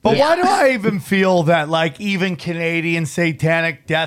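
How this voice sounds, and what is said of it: Usual voice. Nothing is said of it.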